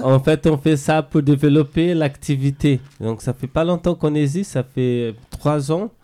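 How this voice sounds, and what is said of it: Brazilian accent speaking French. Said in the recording (French): “avec mon accent, je suis brésilien.”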